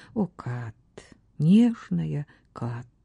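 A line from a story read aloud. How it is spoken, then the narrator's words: Passionate whisper between kisses. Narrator (Russian): шептал Ботвелл между жадными поцелуями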